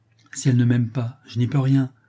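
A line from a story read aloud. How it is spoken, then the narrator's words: Plain. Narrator (French): répondit le prince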